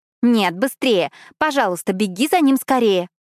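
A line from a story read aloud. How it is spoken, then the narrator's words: Shout. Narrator (Russian): крикнула я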